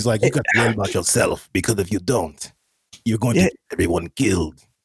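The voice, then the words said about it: Imitates a game character's voice. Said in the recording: “a bad impression, but... it's about spot on”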